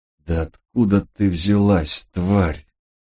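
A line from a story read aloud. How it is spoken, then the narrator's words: Moaning. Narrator (Russian): простонал читер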